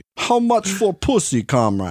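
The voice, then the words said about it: Put-on foreign accent. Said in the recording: “I can't do that accent... That's one of the few ones that I can do”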